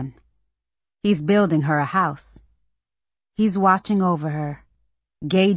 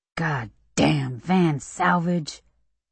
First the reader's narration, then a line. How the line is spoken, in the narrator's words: Daddy mutters